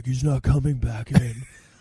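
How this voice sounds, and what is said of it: Imitates another person's voice. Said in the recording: “my best imitation ... I could do is Keanu Reeves. That's because I sound like him.”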